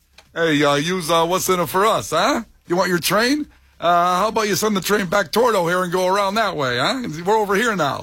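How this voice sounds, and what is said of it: Bad mafia tough-guy voice. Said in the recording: “You would not be a convincing mafia member. ... That was a very bad. ... No, it was horrible. ... Of all my great impersonations.”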